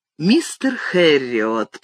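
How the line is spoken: Cooing. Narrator (Russian): проворковал он

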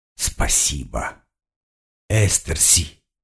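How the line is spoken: Hoarse croak. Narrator (Russian): прохрипел я

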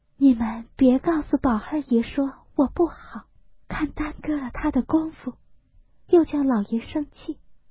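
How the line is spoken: Hesitant, sighing. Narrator (Chinese): 黛玉迟了半日，叹了一声，才说道

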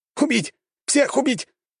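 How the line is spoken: Hysterical shriek. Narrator (Russian): зал наполнился его истерическим визгом

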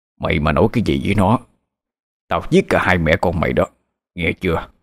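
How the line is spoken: Menacing, through gritted teeth. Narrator (Vietnamese): Ông trích qua kẽ răng

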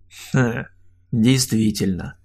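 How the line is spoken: Knowing snort. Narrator (Russian): хмыкнул Олег

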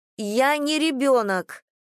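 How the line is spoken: Loud declaration. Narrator (Russian): громко заявила Надя

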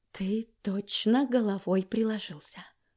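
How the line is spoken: Whisper. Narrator (Russian): сказала я шепотом

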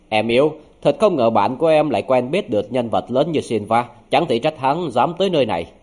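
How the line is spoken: Angry, mocking. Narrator (Vietnamese): nỗi tức giận trong lòng Jim lại thiêu đốt lên, hắn châm chọc nói

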